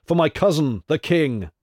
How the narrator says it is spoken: shouted Hercules

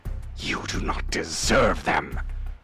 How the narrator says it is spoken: Cabal hissed

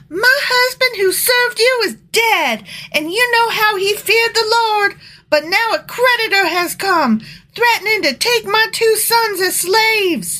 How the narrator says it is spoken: The widow of a member of the group of prophets came to Elisha and cried out

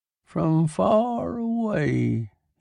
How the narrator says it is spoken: he croaked

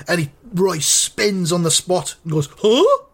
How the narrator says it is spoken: It says, the snarling recorded voice

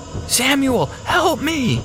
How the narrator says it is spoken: shouting

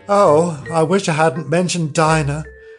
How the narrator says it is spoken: she said to herself in a melancholy tone

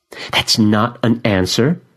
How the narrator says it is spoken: she snaps

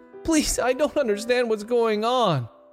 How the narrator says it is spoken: Donald pleaded

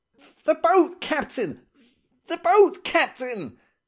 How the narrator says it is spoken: abruptly I found myself shouting in a queer, frightened voice

